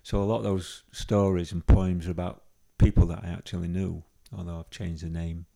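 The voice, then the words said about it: Yorkshire English accent. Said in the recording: “a lot of the characters are from Yorkshire, because that's where you can tell by my accent.”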